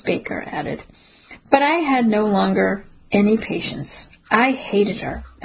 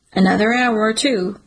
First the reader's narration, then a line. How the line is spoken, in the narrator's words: Peter said